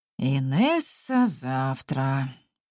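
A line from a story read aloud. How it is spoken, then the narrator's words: Tired, curt. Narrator (Russian): устало отрезает Вадим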